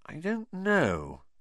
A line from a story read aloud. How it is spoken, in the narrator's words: said Hermione slowly